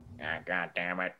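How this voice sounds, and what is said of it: Squidward cartoon voice impression. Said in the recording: “your Squidward impression ... Spitting image”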